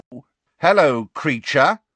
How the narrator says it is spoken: said Fred very loudly

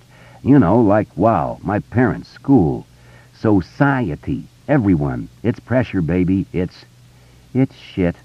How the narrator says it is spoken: Beverly said and sighed

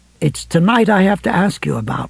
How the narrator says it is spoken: Ralph said, speaking as gently as he could

